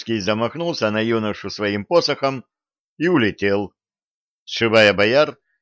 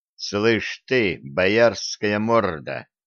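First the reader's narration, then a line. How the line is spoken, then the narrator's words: Growl. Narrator (Russian): прорычал Виталик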